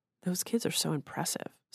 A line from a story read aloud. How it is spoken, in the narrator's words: Sara murmured